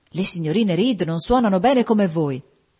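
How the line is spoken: Enthusiastic exclamation. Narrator (Italian): esclamò con entusiasmo

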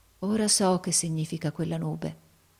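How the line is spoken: Murmur. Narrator (Italian): mormorò

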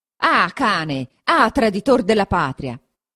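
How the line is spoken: Furious shout. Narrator (Italian): gridò, con un viso da indemoniato

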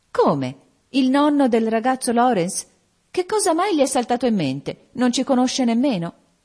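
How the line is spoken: Exclaiming. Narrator (Italian): esclamò Meg

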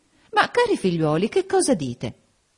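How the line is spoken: Exclaimed. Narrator (Italian): esclamò Lady Lynn

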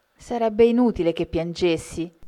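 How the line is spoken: Plain. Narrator (Italian): rispose Belinda

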